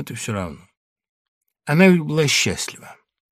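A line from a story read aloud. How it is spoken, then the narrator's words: Quiet. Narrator (Russian): другая заметила тихим голосом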